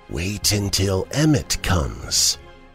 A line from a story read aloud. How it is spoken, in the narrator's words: said quietly